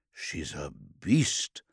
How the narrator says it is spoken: muttered Zetos

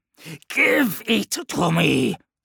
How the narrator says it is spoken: snarled Krukesh

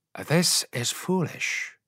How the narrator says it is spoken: he said, his voice as placid as though he were still alone on the Altak

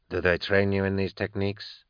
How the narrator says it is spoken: Kiss asked softly

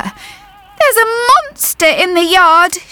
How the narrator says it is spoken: she whimpered

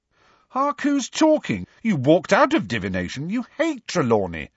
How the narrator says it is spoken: said Ron indignantly

